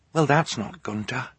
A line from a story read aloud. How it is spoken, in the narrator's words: Violet whispered